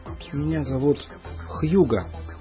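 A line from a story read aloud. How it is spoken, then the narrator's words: Whispered. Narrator (Russian): прошептал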